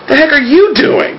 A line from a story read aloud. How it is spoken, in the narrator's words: Margaret exclaimed back